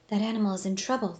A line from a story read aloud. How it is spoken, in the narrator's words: Dawn whispered